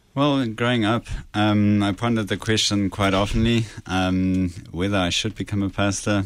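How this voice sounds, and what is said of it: Noticeable non-American accent. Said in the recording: “really cool accent”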